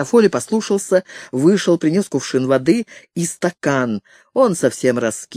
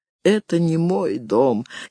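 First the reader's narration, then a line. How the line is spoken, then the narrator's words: Barely audible reply. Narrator (Russian): еле слышно отозвался Гарофолли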